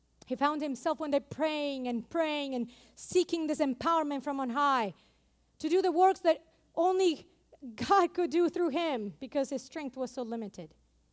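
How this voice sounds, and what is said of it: Noticeable accent, hard to follow. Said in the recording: “my accent sometimes can be hard to follow, especially if I'm reading something”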